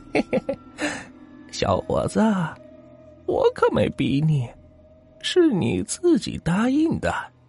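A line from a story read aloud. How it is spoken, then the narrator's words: Eerie laughing woman. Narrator (Chinese): 她诡异的笑了笑，说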